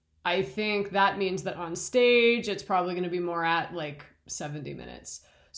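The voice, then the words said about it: Slightly raw, strained voice. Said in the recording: “my voice is a little raw. I don't know if you can tell”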